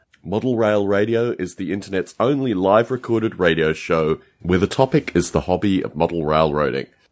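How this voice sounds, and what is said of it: Congested, allergy-affected voice. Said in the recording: “as you may hear from my voice, I have extraordinarily bad allergies”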